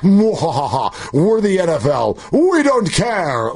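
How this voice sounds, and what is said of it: Roger Goodell impression with evil laugh. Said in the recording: “complete with the laugh... your Roger Goodell impersonation... I'm going to give you a 4 because it's really good”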